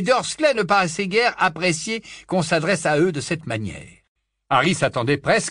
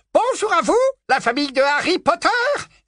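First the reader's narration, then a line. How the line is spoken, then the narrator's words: Joyful exclamation. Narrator (French): s'exclama Dédalus d'un ton joyeux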